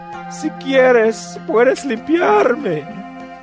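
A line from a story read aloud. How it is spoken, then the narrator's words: Man pleading on knees. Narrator (Spanish): Un hombre que tenía lepra se le acercó y de rodillas le suplicó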